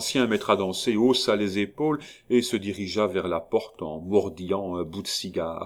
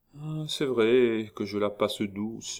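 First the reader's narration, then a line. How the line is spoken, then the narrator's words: Slightly bitter murmur. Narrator (French): murmura Échalot, avec une petite pointe d'amertume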